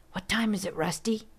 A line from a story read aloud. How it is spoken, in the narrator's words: whispered into his ear